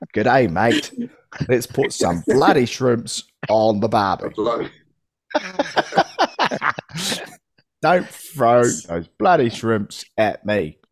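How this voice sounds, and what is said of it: Deliberately bad Australian accent. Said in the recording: “he has to portray himself as an Australian... His Australian accent is absolutely shit.”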